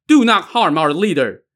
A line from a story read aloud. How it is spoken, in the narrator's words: two men shout from behind